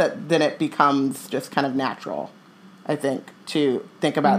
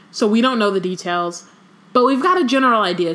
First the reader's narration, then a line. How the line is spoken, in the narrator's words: she added hastily, seeing the look on Harry's face